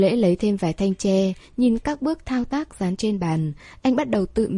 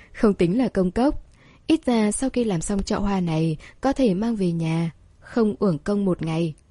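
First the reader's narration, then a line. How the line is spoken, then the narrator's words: Smiling. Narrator (Vietnamese): Lâm Ôn mỉm cười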